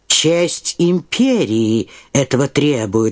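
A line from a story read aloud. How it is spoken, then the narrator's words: Plain. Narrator (Russian): сказал Остерман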